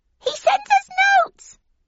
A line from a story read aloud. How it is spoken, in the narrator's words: squeaked the oldest of 3 mice